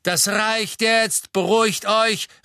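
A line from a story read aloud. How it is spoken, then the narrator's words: Called out. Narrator (German): rief Mr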